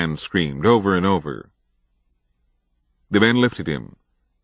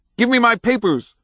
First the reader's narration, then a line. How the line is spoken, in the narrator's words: screamed